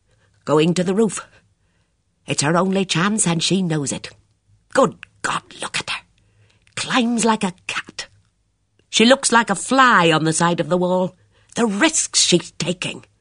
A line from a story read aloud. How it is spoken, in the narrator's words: Miss Marple murmured